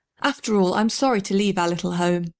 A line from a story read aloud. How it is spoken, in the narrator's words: she said